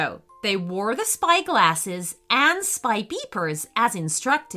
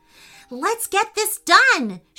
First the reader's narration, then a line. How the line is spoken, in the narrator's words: shouted Camilla